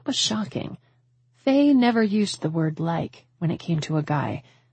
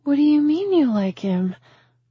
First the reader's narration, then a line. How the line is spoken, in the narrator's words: I asked, my voice soaked with hope that my friend was finally planning on settling down